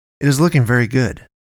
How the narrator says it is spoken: David said

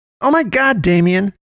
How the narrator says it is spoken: Poe cried, and she started freaking out

